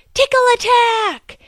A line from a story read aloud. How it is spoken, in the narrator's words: his father yell